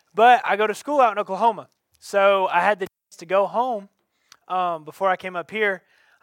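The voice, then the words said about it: Southern twang accent. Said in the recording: “hence the twang, okay? It's going to pop through a little bit.”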